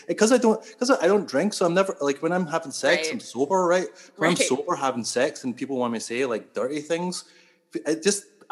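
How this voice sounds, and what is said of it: Scottish accent. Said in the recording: “the accent ... the accent will play a part into it ... I'm Scottish”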